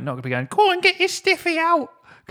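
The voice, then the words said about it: Silly put-on voice. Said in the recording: “doing that silly voice”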